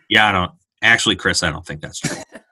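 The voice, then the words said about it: Deadpan Fred Hoiberg impression. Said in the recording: “pretty good Fred Hoiberg impression. ... Deadpan”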